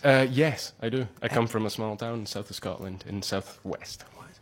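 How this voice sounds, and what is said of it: Scottish accent. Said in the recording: “You do have a wonderful Scottish accent.”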